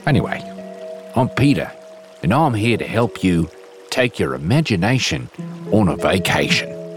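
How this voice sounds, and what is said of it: Inconsistent put-on Australian/New Zealand accent. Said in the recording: “an at times passable, but mostly wildly inconsistent Australian / New Zealand accent”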